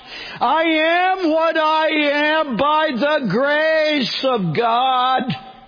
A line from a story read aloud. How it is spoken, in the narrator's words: he cried out